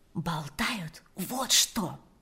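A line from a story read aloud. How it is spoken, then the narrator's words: Whispered. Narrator (Russian): прошептала Ирина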